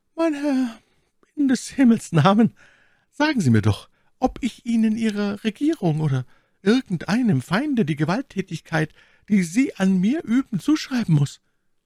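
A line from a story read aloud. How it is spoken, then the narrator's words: Sighing voice. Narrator (German): sagte mit seufzender Stimme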